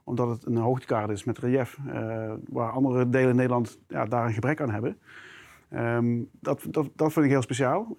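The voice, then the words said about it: South Limburg Dutch accent. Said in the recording (Dutch): “je hoort misschien al mijn accent. Eh, ik, ik, kom uit Limburg, heel specifiek uit Zuid-Limburg.”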